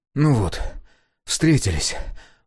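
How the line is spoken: Breathed out. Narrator (Russian): выдохнул Сега

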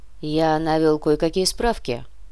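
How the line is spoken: Cold. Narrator (Russian): холодно продолжил

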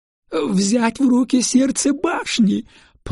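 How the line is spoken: Weeping moan. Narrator (Russian): плачуще простонал он

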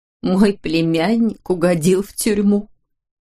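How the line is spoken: Moaning, holding back tears. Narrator (Russian): простонала она, едва сдерживая слезы

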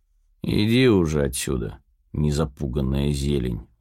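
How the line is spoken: Tired smirk. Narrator (Russian): усмехаюсь, устало

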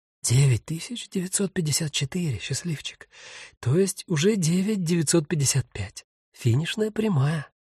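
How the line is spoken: Hurried whisper. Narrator (Russian): торопливо прошептала

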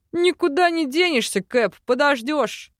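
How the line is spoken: Chuckle. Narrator (Russian): хохотнул Йор

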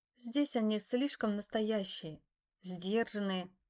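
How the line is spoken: Breathy exhale, female. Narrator (Russian): выдохнула она

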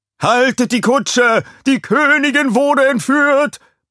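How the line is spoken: Guard bellowing. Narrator (German): brüllte ein Wachmann

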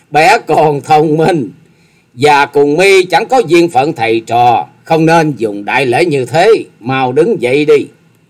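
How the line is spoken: Loud laughter. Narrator (Vietnamese): Thất Sát Thần Bà dục cười to lên

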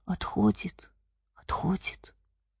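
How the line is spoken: Frightened whisper. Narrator (Russian): испуганный шепот сыновей

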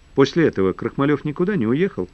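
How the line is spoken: Plain. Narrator (Russian): спросил Феденев

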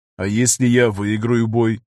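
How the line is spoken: Calm question. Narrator (Russian): спокойно спросил Виктор

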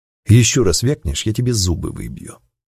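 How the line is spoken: Quiet whispered threat. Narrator (Russian): тихо сказал я, наклонившись к его уху

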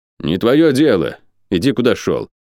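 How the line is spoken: Deliberately rude reply. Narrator (Russian): нарочито грубо ответил один из них

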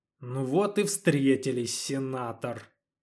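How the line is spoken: Satisfied mutter. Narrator (Russian): пробормотал Федор, ощутив при этом даже какое-то удовлетворение

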